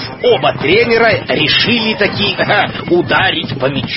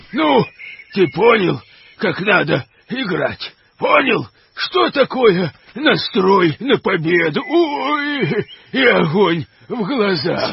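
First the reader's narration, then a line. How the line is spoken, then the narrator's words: Bear groaning in pain. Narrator (Russian): стонал медведь, обхватив травмированную лодыжку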